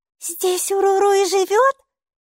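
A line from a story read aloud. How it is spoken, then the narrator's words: Joyful question. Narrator (Russian): радостно спросила Майки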